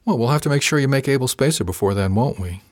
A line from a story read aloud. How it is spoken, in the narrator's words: said softly